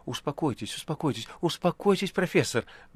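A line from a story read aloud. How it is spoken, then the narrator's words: Soothing mutter. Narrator (Russian): бормотал Берлиоз, опасаясь волновать больного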